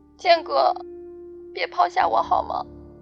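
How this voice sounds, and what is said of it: Tearful, crying voice. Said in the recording (Chinese): “音里带着哭腔”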